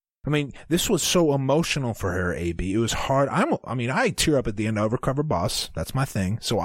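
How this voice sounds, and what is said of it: Usual voice. Nothing is said of it.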